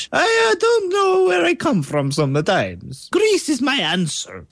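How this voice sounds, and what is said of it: Strange put-on accent. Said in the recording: “why is your accent so strange?”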